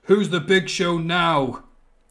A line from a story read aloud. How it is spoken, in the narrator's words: Big Show launches Kane outside and yells